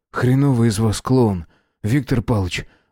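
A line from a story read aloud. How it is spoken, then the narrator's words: Forced out, strained. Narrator (Russian): выдавил Костя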